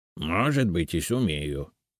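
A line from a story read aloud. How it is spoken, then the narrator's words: Grumbling. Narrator (Russian): проворчал Семен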